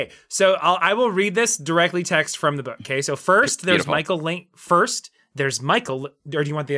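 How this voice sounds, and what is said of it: Usual voice. Nothing is said of it.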